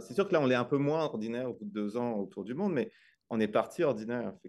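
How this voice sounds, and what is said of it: French-from-France accent. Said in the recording (French): “vous entendez mon accent, moi je suis d'origine française, mais ça fait comme 25 ans que je suis au Québec”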